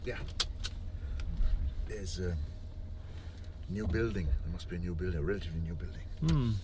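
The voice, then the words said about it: German accent. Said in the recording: “You sound like you're from Germany or Switzerland. ... a German accent I recognize.”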